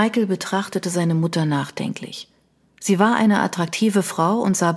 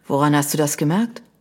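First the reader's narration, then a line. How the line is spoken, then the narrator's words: Sighing. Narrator (German): Sie seufzte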